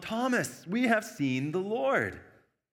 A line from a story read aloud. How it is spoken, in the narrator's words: the disciples excitedly tell him